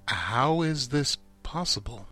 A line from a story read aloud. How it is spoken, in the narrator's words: said slowly